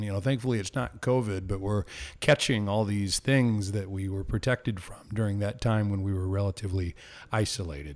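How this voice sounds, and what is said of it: Ragged, slightly hoarse voice. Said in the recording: “my voice is still a little bit ragged. I've been fighting off a bug over the last few weeks.”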